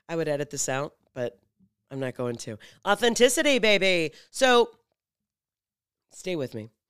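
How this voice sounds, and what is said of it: Scratchy early-morning voice. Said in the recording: “my voice is a little scratchy”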